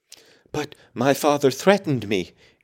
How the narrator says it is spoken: gasped the boy

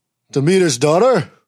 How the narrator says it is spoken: bellowed Hades

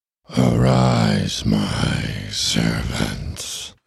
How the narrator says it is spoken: Ernie said in that strange and painful voice

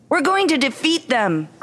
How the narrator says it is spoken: cried Mona

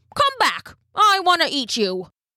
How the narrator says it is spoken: he called out

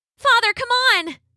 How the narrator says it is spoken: She cried as she ran past him

